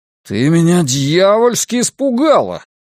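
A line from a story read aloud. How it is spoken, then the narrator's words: Roar. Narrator (Russian): проревел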